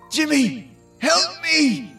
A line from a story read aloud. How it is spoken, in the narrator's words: Geordi yelled as he was being dragged away